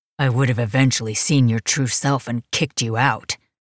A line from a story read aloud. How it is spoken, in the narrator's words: he growled back